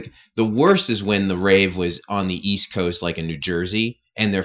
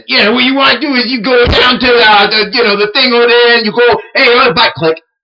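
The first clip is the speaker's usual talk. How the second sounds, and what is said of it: Put-on New Jersey accent. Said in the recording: “their fucking accent ... what caveman with a Jersey accent”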